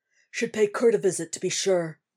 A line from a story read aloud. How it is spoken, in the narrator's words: he grunts